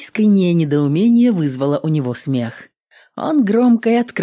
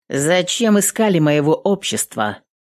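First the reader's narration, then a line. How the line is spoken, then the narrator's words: Rude, losing patience. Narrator (Russian): грубо пояснила Эвелин, начиная терять терпение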